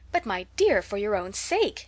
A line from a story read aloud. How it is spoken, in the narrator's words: exclaimed Mrs